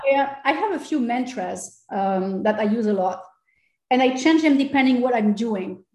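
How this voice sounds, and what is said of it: French accent. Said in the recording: “I use the French accent a lot because I can't get rid of it.”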